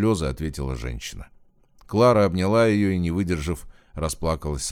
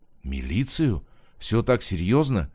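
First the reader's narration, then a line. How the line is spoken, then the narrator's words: Frightened question. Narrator (Russian): испуганно спросила Кормилицына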